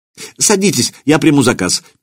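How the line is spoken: Squeaky. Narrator (Russian): пискнула она

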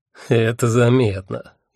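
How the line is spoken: Mocking agreement. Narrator (Russian): насмешливо согласился он

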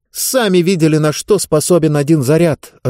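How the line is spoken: Snapped. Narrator (Russian): огрызнулась Диба

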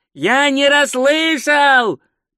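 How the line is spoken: Roar lost in wind. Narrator (Russian): проревел Два Цветок, но и его голос унесло порывом ветра

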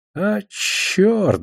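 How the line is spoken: Grumble. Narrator (Russian): буркнул я

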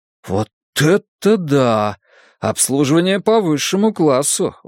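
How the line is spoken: Exclamation. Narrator (Russian): воскликнул Ло Цзи

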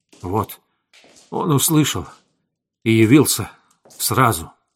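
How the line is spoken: Breathed out. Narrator (Russian): выдохнул Эверард

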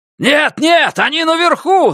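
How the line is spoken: Yelled. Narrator (Russian): заорал ему Бигфут

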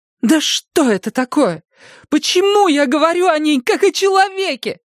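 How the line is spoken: Shouted. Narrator (Russian): закричала она

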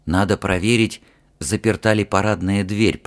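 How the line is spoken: Whispered. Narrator (Russian): прошептал Александр

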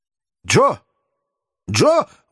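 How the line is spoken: Terrified shout. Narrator (Russian): в ужасе закричал доктор

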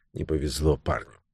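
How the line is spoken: Muttered. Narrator (Russian): пробормотал Джимми

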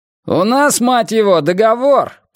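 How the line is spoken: Shouting. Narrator (Russian): прокричал человек в татуировках

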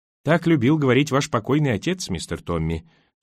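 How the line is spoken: Dry reply. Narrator (Russian): сухо ответила фрау Элленбергер

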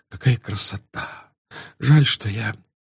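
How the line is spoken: Sighing whisper. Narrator (Russian): девушка со вздохом прошептала

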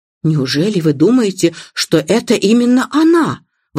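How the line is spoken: Exclaimed. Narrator (Russian): воскликнула миссис Бантри

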